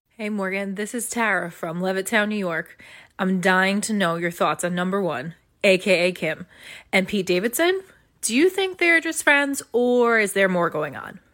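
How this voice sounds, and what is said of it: New York accent. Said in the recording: “You hear that New York accent?”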